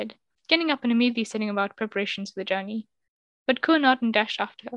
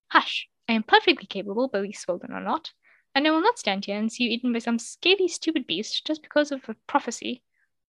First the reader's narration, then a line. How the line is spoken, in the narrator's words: exclaimed